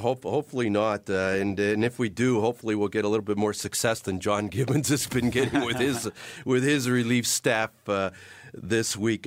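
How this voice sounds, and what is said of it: Slightly raspy, under-the-weather voice. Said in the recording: “A little bit under the weather. My voice bit raspy”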